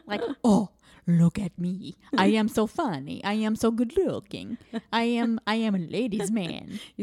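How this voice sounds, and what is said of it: Voice like Count Chocula. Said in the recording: “You sound like Count Chocula. ... I'm not great at accents.”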